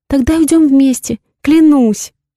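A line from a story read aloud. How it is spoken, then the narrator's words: Sobbing. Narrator (Russian): рыдает она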